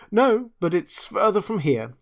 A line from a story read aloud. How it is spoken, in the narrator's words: he said, sadly